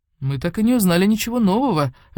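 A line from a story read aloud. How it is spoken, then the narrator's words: Sighing. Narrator (Russian): вздохнул Кайтиро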